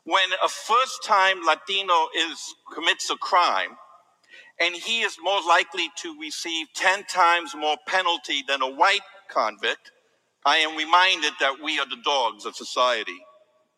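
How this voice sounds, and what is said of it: Speaks with a foreign accent. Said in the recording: “they hear my accent”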